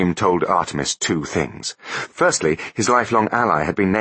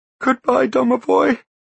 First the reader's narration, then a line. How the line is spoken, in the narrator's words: sobbed the boy